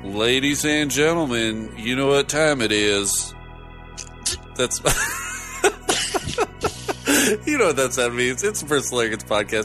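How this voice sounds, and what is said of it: A-Rod impression, Midwest accent slipping Texan. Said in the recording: “That's my best A-Rod impression... The timbre of the Midwest Coast accent is really difficult to replicate... I just slipped right into Texas”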